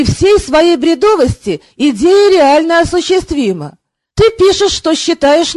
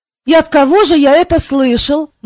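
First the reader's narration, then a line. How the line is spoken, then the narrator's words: Gloomy question. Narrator (Russian): мрачно поинтересовался Кантор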